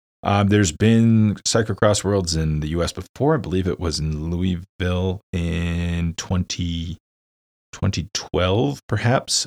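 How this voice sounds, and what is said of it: American accent. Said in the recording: “I'm an American, obviously, you can tell by my voice.”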